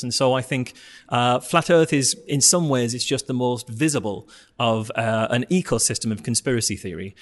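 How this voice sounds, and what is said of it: Northeastern English accent. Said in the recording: “that's my accent ... That's a northeastern accent for you.”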